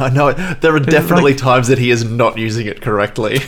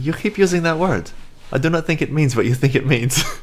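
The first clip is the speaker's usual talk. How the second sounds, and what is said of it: Put-on accent in a film quote. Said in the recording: “Nice little accent there.”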